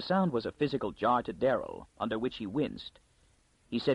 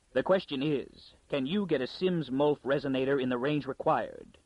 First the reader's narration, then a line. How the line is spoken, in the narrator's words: Darrell replied coldly